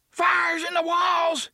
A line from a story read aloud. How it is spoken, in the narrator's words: screamed